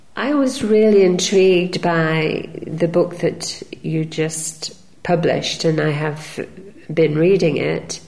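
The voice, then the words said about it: Sick, congested-sounding voice. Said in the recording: “when I was suffering from a cold, so I do apologize for my voice.”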